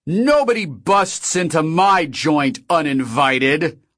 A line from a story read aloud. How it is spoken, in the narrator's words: Og shouted, his voice echoing through the now silent club